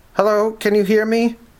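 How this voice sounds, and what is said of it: Heavily filtered, distant radio-like voice. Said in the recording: “Her voice was highly filtered, like some distant AM radio signal.”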